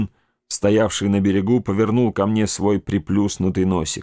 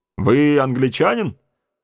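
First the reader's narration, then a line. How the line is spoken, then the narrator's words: Shouting with a grin. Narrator (Russian): крикнул, расплываясь в улыбке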